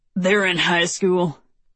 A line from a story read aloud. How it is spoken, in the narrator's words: grunts Dale